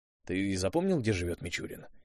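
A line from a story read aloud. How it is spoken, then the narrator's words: Quiet question. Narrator (Russian): тихо спросил Виарелл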